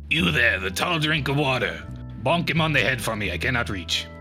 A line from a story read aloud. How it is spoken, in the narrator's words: raspy-voiced old woman clicks her tongue, says